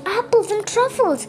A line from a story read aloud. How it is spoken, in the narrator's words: squealed Russel